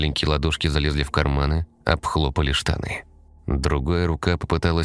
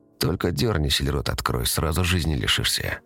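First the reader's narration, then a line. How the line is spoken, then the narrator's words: Hoarse whisper in ear. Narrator (Russian): Хрипловатый голос прошептал в ухо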